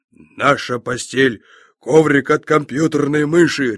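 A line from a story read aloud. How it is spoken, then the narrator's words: Bark then laughter. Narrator (Russian): рявкнул и захохотал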